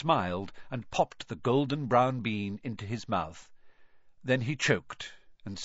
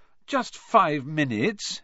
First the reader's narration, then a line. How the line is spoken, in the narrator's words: Harry pleaded